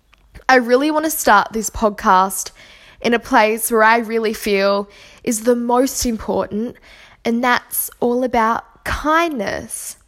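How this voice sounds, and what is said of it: Sore throat, voice sounds off. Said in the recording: “I'm getting a little bit of a cold, so my throat is feeling really, really bad... my voice sounds a little bit funny”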